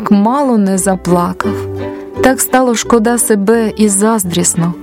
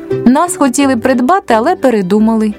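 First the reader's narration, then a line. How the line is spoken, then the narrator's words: Plain answer, several voices. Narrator (Ukrainian): відповіли корзинки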